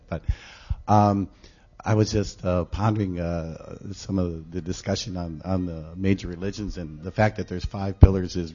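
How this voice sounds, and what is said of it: Hoarse, unsteady sick voice. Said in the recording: “I'm hoarse and getting over a sickness, so my voice might go up and down here a bit”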